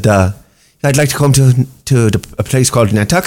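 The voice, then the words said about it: Put-on Irish accent. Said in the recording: “the Irish people are probably out there going, that's the worst Irish accent ever ... That was pretty good, actually.”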